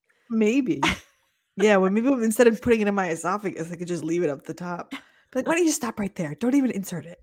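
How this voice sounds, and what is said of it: Hoarse, fading voice. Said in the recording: “sorry, coughing fit. ... I'm losing my voice all of a sudden.”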